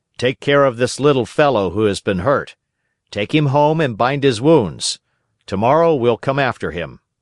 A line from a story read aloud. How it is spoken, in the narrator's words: the officers called out to several fishermen passing by in a boat and said to them